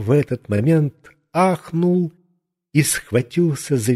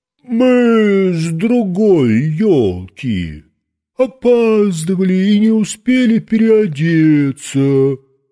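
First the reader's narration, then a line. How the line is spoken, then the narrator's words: Disguised deep bass. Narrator (Russian): не своим голосом басил Жора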